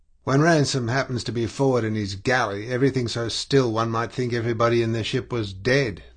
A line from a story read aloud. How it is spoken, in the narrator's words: he grumbled